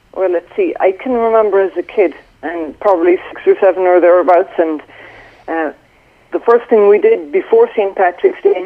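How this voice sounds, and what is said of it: Irish accent. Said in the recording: “from your accent, you were born in Ireland”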